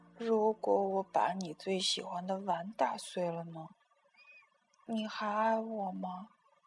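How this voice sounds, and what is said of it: Quiet, whispered child's line. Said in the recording (Chinese): “她小声说”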